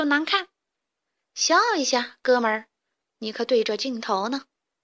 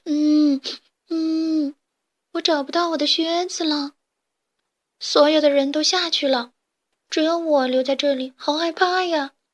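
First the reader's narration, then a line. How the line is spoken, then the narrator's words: Little chick crying. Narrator (Chinese): 一只绿色的小鸡正在哭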